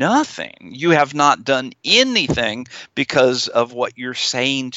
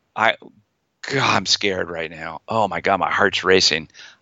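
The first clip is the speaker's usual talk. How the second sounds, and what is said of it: Scared, anxious tone of voice. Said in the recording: “you can hear the change in my tone of voice. ... my feared voice is going to come up”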